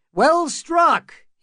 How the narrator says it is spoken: called out, laughing

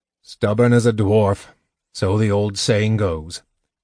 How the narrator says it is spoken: Caraman grunted

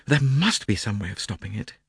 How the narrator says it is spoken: she murmured

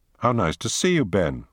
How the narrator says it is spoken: she said

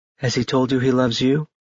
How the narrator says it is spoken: Bethany asked softly

